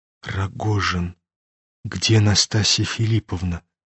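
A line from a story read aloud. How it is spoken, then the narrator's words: Sudden trembling whisper. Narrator (Russian): Прошептал вдруг князь, дрожа всеми членами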